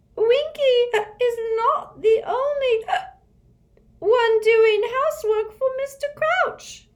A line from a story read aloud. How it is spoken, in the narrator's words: Winky squeaked indignantly